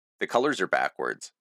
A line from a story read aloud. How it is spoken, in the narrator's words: Tony said